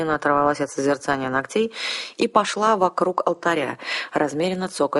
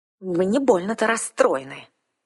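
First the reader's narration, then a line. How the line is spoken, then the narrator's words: Sharp blurted remark. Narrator (Russian): Излишне резко вырвалась у меня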